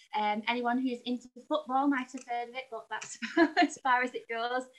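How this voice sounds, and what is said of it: Northern English accent. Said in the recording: “your wonderful accent ... I grew up in a very, very small town called Burnley ... near Manchester, sort of northwest. England.”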